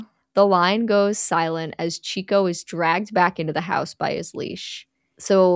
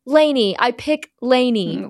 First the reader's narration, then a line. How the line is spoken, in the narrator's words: An intense scream rings out as Mia shouts